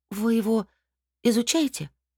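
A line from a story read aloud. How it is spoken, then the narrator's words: Trembling, sympathetic voice. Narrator (Russian): спросила я дрогнувшим голосом, испытывая к монстрику искреннее сочувствие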